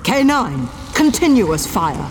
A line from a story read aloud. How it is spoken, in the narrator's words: shouted the Doctor